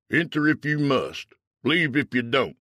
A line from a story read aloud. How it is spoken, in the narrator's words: From inside, a voice called out